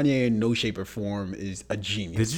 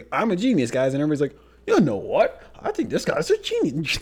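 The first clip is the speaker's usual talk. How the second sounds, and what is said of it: Imitates another person's voice. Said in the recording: “Did you just channel Bill Cosby? ... a little accent there ... that was my Bill Cosby impersonation”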